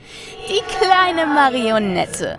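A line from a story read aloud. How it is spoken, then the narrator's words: Malicious laughing. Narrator (German): lacht es boshaft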